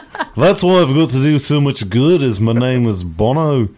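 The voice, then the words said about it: Imitates another person's voice. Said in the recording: “doing a Ringo voice”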